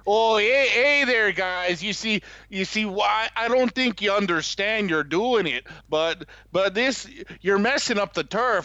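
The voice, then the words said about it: Put-on North Dakota-like accent. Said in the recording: “using like a North Dakota accent to go for the whole Chicago thing ... the Chicago impression”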